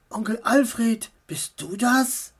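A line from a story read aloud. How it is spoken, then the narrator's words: Whispered. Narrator (German): flüsterte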